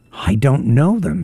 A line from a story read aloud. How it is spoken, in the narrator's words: said Fall